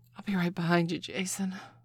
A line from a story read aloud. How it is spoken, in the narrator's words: Lucy breathed